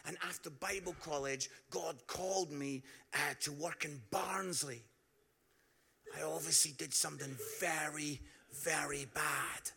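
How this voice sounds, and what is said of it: Scottish Edinburgh accent. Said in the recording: “some of you can pick up from my accent, I'm from Edinburgh”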